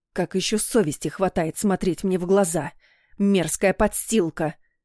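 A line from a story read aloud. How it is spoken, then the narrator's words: Hissing. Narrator (Russian): прошипела она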